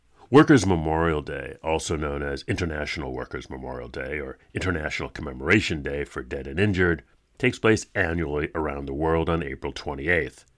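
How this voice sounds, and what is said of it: Froggy voice from a cold. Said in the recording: “I'm fighting a spring cold, so my voice is a bit froggy”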